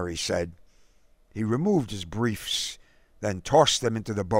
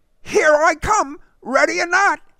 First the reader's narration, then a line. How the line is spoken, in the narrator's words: Derek, crouching and hopping around, naked, howled